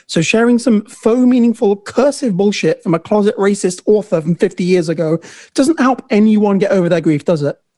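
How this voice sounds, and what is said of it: Heated rant, sharply enunciated. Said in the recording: “Hearing you rant with your accent is so funny ... you get so heated and like enunci- like your enunciations of ... enunciate”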